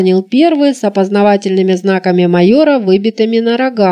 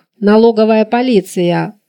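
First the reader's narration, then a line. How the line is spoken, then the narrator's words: Gloomy mutter. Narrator (Russian): угрюмо пробурчал второй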